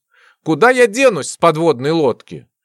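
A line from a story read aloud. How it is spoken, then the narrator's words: Sighing. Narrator (Russian): Вздохнул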